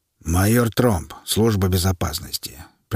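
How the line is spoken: Deep penetrating bass. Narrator (Russian): представился тот густым, всепроникающим басом

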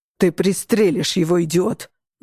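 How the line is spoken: Barking shout. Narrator (Russian): гаркнул Алессандро

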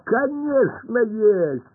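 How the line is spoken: Laughing. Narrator (Russian): рассмеялся Пашка

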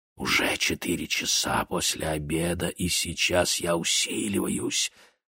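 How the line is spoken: Whispering. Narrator (Russian): западным ветром, который нашептывал

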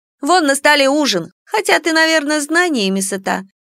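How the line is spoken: Sarcastic. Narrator (Russian): язвительно добавила она

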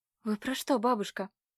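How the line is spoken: Quiet, taken aback. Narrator (Russian): опешила Катя тихо

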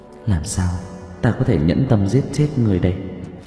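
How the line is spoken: Muttered. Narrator (Vietnamese): Dương công tử lẩm bẩm

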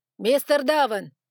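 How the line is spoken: Sharp interruption. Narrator (Russian): оборвал его Лукас

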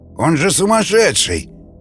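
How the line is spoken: Exclaiming after running up. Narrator (Russian): воскликнул подбежавший Лазар

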